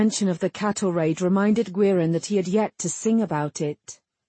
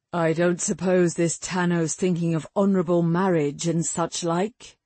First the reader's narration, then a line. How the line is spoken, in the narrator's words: Gwerin said